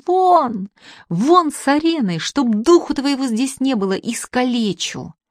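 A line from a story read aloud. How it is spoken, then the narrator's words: Furious shout. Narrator (Russian): Самарин в ярости закричал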